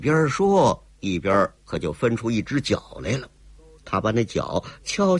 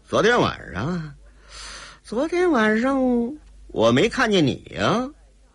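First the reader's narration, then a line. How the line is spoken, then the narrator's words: Cold laugh. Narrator (Chinese): 姓齐的冷冷一笑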